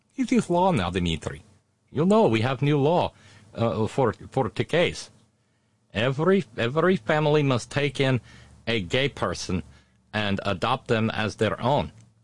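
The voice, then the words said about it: Exaggerated put-on Russian accent. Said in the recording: “a horrible Russian accent”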